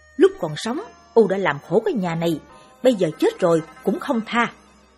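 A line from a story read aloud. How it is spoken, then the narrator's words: Angry, unrepentant shouting. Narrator (Vietnamese): Ông V chẳng những không ăn năn mà còn bực tức quát vợ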